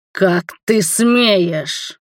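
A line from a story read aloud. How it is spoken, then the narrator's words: Angry growl. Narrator (Russian): прорычал Паша в гневе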